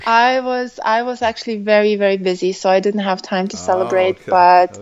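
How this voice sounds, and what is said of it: Mixed non-native English accent. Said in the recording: “you have a lovely accent ... it sounds a little different ... my accent is a big mix of everything”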